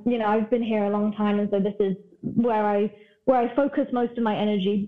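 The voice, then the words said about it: British accent. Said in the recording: “I started by asking about your accent, and you said you're from the UK.”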